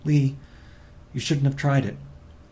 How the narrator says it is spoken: she said anxiously

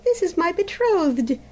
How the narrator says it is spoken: exclaimed the princess joyfully

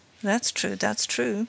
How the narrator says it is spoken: muttered the magistrate, who was obviously interested

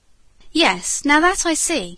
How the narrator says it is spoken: agreed Laura eagerly

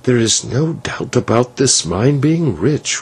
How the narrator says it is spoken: whispered the señor

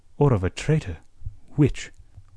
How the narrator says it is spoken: Blood asked him quietly

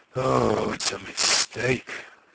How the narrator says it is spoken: she groaned

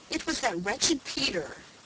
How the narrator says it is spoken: sobbed Felicity indignantly

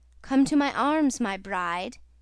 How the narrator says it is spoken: he cried

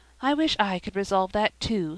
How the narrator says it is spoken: sighed Sara Ray

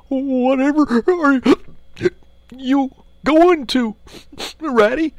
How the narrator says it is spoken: cried the tearful Mole

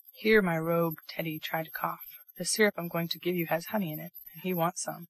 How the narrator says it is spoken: Bear whispered to him, with a droll look

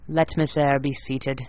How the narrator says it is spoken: he said, in the forced, stiff bow, in the impatient yet formal tone

